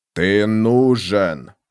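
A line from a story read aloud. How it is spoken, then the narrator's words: Growling. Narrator (Russian): зарычал Бен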